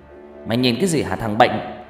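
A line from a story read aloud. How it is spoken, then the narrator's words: Angry, through gritted teeth. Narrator (Vietnamese): Người anh nghiến răng giận dữ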